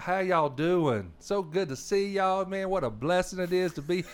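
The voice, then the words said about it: Slow North Arkansas Southern accent. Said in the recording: “North Arkansas, ... the accent is like, ... You know, it's a little bit slower.”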